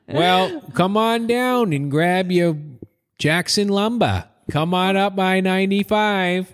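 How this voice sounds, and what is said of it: Put-on Maine accent. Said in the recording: “I have to do it in a main accent every time.”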